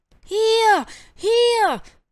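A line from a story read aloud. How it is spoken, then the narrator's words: Owl's excited call. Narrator (German): rief die Eule Karl aufgeregt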